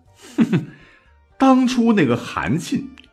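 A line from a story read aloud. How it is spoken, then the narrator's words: Fearless, grinning. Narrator (Chinese): 蒯彻一点不害怕啊，反而是对这个刘邦笑嘻嘻的说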